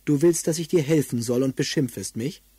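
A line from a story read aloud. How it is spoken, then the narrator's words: Rather cold reply. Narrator (German): antwortete ziemlich kalt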